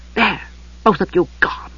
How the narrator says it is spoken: she whispered

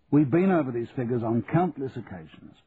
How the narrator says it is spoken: said Charlie sharply

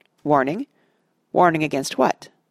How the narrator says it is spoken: said Boromir sharply

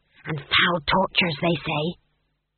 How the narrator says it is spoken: someone whispered to Granny

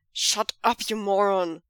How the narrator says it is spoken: Cheng Cheng growls

